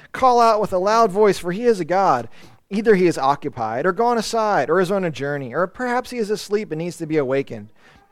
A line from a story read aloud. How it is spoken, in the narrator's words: Elijah mocked them and said